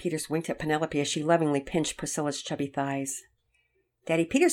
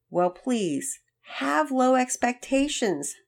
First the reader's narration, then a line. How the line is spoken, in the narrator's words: Penelope pleaded